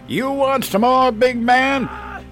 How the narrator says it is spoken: Your dad screams down at him

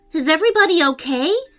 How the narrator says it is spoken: asked Prince Henry urgently

